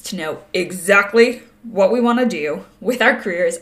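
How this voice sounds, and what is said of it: Suddenly deep voice. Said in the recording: “deep voice”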